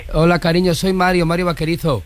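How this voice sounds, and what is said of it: Valencian Spanish accent. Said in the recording (Spanish): “habla todo el rato con acento valenciano.”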